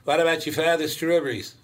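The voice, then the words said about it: Northern New England accent. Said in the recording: “Maine and Upper New Hampshire and that accent”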